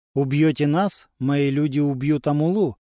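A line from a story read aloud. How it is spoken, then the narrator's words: Calm voice. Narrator (Russian): все тем же спокойным голосом произнес Модиба Тумани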